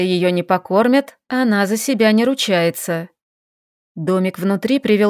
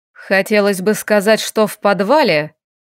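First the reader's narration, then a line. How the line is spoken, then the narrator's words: Cold, curt. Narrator (Russian): холодно бросил эльф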